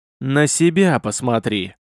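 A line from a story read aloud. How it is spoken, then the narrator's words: Loud wheezing. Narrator (Russian): с громким хрипом произнес красномордый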